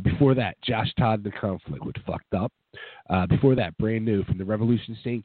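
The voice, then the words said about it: Sick, strained voice. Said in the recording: “As you can tell, I am sick and my voice is just, I'm sick”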